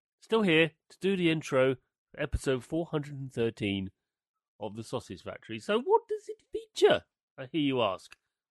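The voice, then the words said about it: Lower, rough voice from cold. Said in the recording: “Apologies for the voice. Just recovering from a cold... my voice is a little bit octave lower... Not good.”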